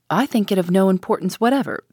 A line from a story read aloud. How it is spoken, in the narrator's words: said Madame Fosco sharply and suddenly